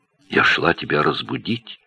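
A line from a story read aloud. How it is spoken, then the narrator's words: Quiet. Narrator (Russian): сказала она тихо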